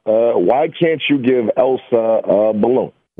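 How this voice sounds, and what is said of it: Impression of President Obama. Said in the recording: “they're going to impersonate somebody doing a dad joke ... President Obama”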